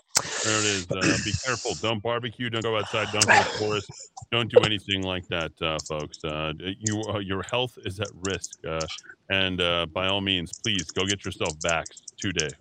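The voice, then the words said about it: Sarcastic delivery. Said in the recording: “I'm being sarcastic, of course.”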